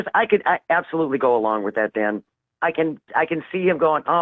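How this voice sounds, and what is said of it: Usual voice. Nothing is said of it.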